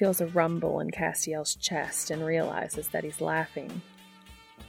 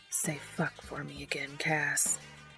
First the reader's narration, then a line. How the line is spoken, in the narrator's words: He lets go of Cass's earlobe long enough to whisper